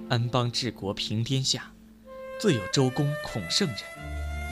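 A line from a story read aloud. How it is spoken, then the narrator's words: Soft sighing recitation. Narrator (Chinese): 微微的叹口气，口中微吟道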